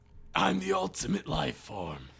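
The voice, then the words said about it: Imitates Shadow the Hedgehog's voice. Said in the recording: “my Shadow impression... That's very good.”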